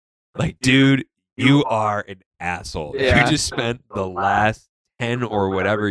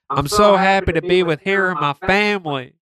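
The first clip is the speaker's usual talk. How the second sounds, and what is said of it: Fake Southern American accent. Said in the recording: “faked the Southern accent.”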